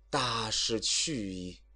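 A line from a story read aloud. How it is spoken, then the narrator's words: Long sigh. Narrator (Chinese): 孔明长叹一声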